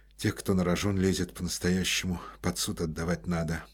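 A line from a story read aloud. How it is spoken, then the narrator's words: Muttered. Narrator (Russian): пробормотал Коростелев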